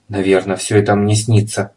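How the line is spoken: Mumbling. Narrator (Russian): пробормотала она наконец

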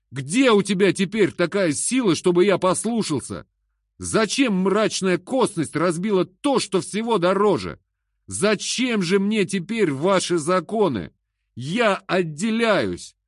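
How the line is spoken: Shouting. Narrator (Russian): А я закричу ему

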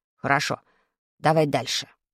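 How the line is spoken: Stern command. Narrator (Russian): строго скомандовал Вадик

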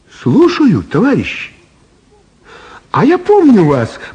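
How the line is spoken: Cheerful. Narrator (Russian): весело сказала Элла

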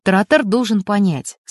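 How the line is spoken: Calm, android. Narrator (Russian): спокойно произнес электроник

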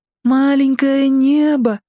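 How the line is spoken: Slightly sing-song child. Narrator (Russian): чуть нараспев повторил малыш

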